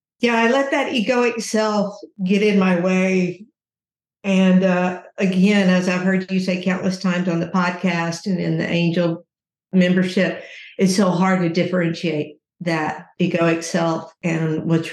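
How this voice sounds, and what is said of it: Teary, emotional voice. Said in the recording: “getting a little teary-eyed here”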